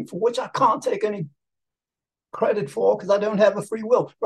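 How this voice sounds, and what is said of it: Put-on British accent. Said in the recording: “I'm gonna start talking in the British accent”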